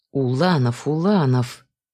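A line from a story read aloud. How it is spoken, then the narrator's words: Grumbling. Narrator (Russian): проворчала я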